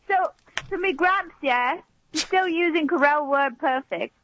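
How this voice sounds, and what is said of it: Put-on English accent. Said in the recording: “English accent ... That sounds like something a British person would do, too.”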